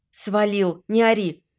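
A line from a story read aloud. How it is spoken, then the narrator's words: Hissing into phone. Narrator (Russian): зашипела я в трубку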